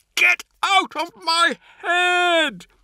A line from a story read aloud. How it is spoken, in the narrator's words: He screamed